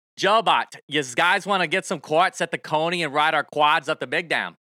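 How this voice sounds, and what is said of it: Put-on Pennsylvania accent. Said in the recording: “I'm going to read for you in my best Pennsylvania accent”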